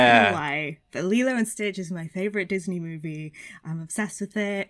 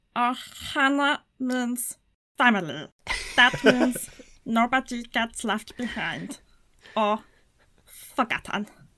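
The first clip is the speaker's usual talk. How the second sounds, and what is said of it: Imitates cartoon character Stitch's voice. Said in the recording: “I love Stitch. It's like the only celebrity impression I can do. ... That was spot on. The cadence, the rhythm,”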